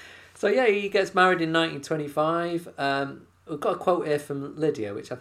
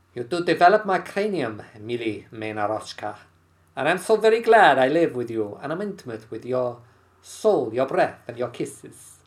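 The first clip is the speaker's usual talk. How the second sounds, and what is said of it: Put-on Russian accent. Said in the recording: “Dare I try a Russian accent? ... That's not bad.”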